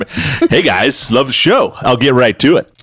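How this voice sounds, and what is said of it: Put-on bro voice. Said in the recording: “He's putting on his bro voice.”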